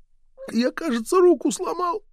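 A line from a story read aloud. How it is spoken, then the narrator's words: Whimper. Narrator (Russian): прохныкал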